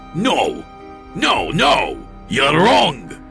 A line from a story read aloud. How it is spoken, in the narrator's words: he shouted at me